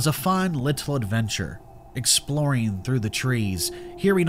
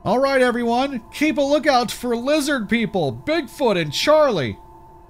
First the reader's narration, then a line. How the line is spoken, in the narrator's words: Chris rather mockingly called out